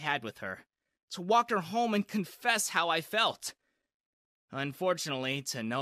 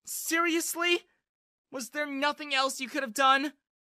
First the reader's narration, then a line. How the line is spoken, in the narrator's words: yelled